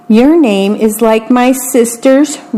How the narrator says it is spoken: Rigoberto says

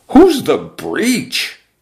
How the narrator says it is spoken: the exponentially multiplying boys cried out

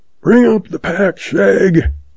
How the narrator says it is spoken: Zeb hollers

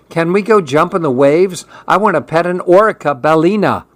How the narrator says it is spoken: Evan asked, impatiently

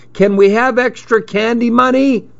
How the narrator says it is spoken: he yelled

